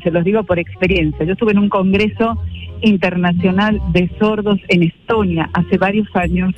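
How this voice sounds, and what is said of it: Argentine Spanish accent. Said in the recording (Spanish): “Me llama poderosamente la atención tu acento... de Argentina. De Argentina... Mendoza”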